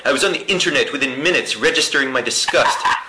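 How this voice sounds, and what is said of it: Impression of Comic Book Guy. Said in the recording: “It's like the comic book guy from The Simpsons ... That was a good imitation”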